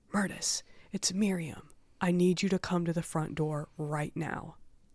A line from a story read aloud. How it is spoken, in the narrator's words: Myrtis could hear Miriam hissing